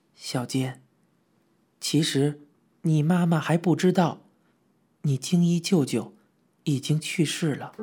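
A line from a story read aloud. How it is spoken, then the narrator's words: Quiet, hushed. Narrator (Chinese): 小声的对我说道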